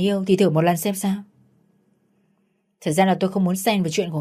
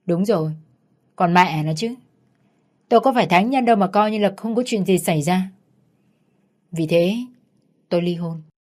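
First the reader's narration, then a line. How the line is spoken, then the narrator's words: Laughing. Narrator (Vietnamese): Giám đốc Hiền lại bật cười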